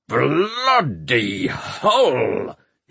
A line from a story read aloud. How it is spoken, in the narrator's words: he growled